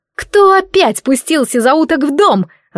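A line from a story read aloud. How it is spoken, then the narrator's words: Yelling. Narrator (Russian): заорала она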